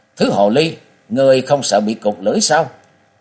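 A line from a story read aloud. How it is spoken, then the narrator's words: Shouting woman. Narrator (Vietnamese): Miệng của nàng la lên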